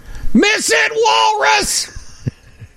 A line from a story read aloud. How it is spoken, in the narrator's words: someone from the deck of their place that they were staying at the Pebble Beach Inn shouted